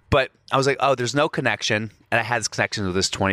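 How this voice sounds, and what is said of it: Usual voice. Nothing is said of it.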